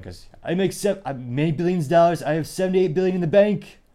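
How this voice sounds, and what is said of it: Rough Donald Trump impression. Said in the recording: “your Trump impression for the day. It might have broken your earballs. It wasn't the best”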